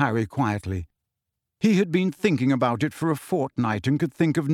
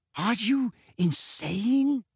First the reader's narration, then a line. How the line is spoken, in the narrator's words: said Hermione in a hushed voice